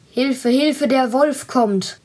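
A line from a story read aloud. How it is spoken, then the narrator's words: Shouting as loud as possible. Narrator (German): rief so laut er konnte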